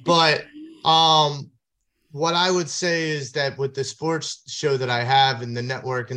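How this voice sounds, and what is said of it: Philadelphia accent. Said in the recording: “now I hear the accent. ... I've been told I have an accent.”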